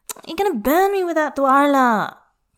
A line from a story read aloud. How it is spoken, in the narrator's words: Tangfan whines